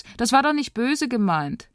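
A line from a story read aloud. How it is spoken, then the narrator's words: Calling out. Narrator (German): ruft Moritz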